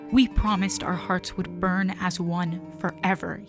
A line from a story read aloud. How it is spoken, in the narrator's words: he murmured